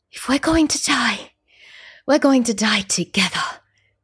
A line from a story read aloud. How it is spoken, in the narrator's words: I whispered